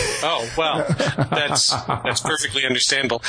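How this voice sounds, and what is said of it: Usual voice. Nothing is said of it.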